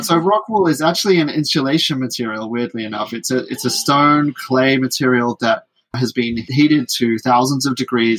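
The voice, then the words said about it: British accent. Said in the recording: “my British accent maybe makes it a little bit hard to...”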